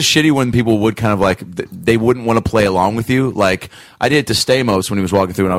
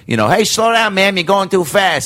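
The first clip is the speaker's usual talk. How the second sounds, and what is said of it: New York cop character voice. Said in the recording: “I was the New York cop”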